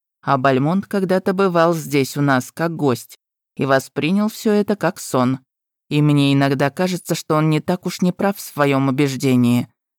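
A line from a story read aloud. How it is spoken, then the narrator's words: Plain. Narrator (Russian): сказал советник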